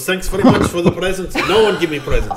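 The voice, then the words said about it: Put-on German accent. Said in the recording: “He's German, let me do his accent.”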